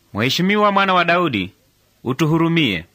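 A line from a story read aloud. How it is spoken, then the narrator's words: Shouting louder. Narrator (Swahili): wakazidi kupaza sauti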